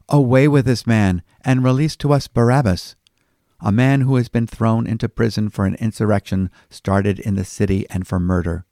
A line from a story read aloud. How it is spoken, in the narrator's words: they all cried out together